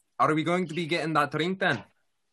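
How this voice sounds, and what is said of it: Stereotypical put-on Scottish accent. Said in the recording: “the accent. ... I just gotta go stereotypical Scottish right now.”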